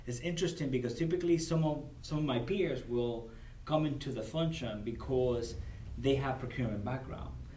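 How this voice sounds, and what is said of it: Non-native English accent. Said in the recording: “I'm an immigrant ... English is my second language. I have an accent when I speak”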